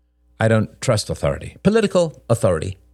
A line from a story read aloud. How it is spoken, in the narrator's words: added Robert quickly